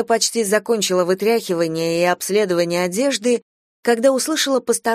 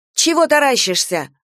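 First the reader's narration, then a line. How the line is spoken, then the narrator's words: Barked. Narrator (Russian): гаркнула Дуня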